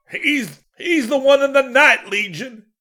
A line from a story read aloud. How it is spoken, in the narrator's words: He howled